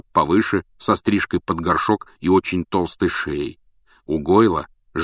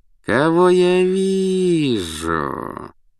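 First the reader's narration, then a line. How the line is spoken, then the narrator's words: Lazy drawl. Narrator (Russian): по обыкновению лениво протянул Малфой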